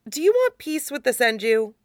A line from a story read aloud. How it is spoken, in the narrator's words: sighs